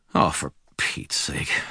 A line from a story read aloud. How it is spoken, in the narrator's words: muttered